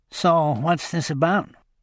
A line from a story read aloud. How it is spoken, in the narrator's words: Pell asked in a high nasal voice